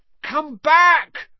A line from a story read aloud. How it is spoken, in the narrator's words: Ron yelled after it